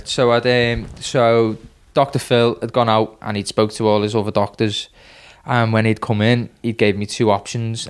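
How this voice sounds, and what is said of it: Liverpool accent. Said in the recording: “this guy's from Liverpool. The different accent.”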